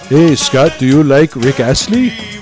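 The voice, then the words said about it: Put-on French-Canadian accent. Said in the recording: “in his kind of French-Canadian accent”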